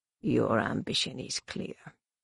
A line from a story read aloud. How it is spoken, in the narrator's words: Shimra murmured